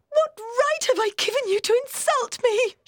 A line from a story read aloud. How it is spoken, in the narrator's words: She cried